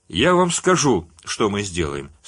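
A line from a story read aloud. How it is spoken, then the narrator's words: Calm reply. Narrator (Russian): спокойно ответил Юджин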